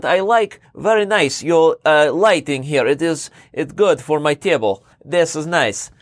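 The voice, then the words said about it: Put-on Russian/Ukrainian accent, broken English. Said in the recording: “my Russian accent ... Along with the accent ... that's more Ukrainian, what I just did there”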